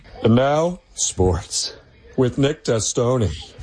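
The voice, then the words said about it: Joe Swanson cartoon character impression. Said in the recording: “Why does he sound like Will Ferrell? ... I'm pretty sure that was his Joe Swanson impression. ... Or David Putty.”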